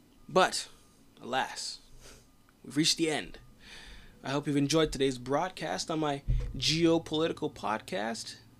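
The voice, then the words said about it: Slightly raspy voice. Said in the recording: “My voice is getting a little raspy.”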